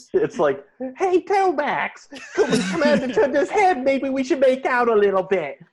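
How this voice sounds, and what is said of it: Put-on British kid accent. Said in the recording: “British kids yelling all over it ... I'm British. I can't even do the accent that they do.”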